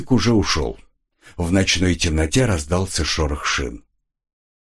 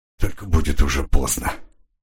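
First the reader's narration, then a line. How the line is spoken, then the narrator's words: Whispered. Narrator (Russian): прошептал он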